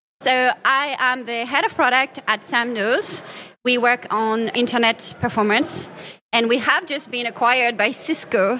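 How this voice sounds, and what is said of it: Slight French accent. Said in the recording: “with a little French accent, I'm sure you can get”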